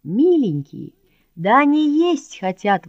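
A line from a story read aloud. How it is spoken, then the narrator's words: Exclaiming. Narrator (Russian): воскликнул Мишка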